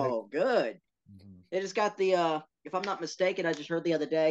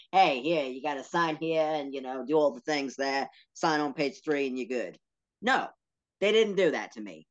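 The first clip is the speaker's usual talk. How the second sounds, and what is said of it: Put-on New York accent. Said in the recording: “why am I talking like a New Yorker? ... Got so angry his accent changed.”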